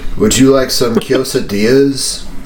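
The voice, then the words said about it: Put-on British accent. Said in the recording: “with a British accent.”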